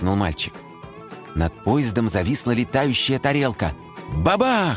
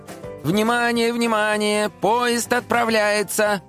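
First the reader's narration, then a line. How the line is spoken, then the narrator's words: Loud announcement. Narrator (Russian): громко произнес Дим Димыч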